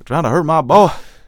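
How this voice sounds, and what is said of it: Put-on southern accent. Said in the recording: “I gave Tobias' dad a southern accent.”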